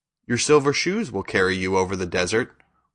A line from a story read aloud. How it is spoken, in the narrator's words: replied Glinda